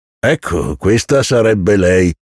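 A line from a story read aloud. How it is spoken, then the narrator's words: Laughing, man. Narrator (Italian): presentò il mastro ridendo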